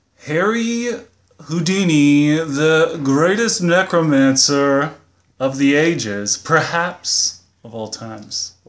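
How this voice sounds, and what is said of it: Put-on announcer voice. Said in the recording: “What was up with that accent, man? ... That's my announcer accent.”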